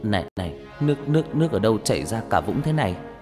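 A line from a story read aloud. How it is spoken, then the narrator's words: Dazed, trembling voice. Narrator (Vietnamese): Gương mặt của Nam lúc này như người mất hồn, mãi một lúc sau anh mới đáp bằng cái giọng run run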